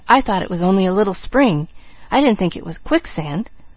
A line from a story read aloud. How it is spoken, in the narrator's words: he whispered